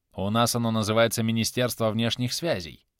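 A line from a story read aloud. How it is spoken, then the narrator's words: Gentle correction. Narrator (Russian): мягко поправил Эномота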